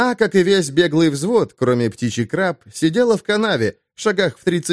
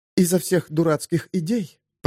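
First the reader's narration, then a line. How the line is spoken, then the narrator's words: Whisper. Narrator (Russian): прошептала подлянка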